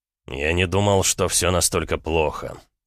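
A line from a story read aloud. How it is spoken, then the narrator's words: Gloomy voice. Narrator (Russian): мрачно сказал Эд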